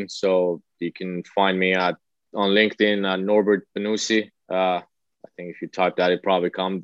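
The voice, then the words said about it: Thick foreign accent. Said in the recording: “my thick accent”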